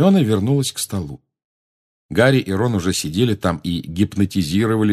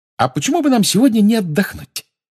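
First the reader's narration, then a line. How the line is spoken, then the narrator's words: Cheerful. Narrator (Russian): весело сказала Гермиона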